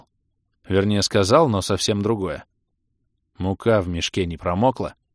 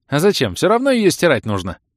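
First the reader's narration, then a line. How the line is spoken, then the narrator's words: Cheerful smiling voice. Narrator (Russian): радостно улыбался тот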